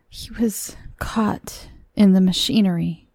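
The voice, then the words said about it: Low, quiet voice. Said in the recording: “said the visitor at length in a low voice.”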